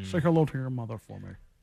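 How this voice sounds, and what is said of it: Sean Connery impression. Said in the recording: “your best Sean Connery impersonation”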